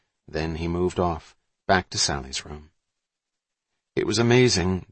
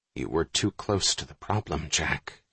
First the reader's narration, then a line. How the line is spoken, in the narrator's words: he whispered